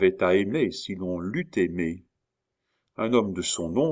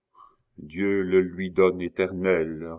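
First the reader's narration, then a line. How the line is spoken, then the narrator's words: Grave cold funereal voice. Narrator (French): répondit la dame d'une voix grave et froide, comme un glas de mort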